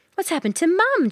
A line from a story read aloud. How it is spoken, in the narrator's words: Jack cried